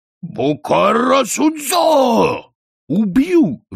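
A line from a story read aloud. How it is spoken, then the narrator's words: Roaring. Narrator (Russian): взревел он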